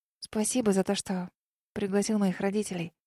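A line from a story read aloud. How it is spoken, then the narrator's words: Whispered. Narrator (Russian): шепнула я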